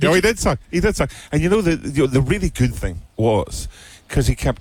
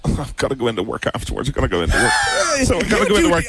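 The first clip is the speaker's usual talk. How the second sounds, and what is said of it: Mocking impression of a co-host. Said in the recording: “How do you do this good of an impression already?”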